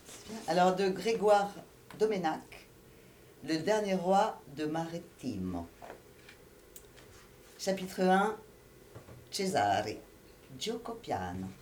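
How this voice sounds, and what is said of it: Italian accent speaking French. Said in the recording (French): “vous excuserez mon accent aussi italien”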